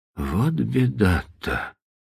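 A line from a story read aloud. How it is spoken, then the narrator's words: Whispering. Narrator (Russian): прошептал он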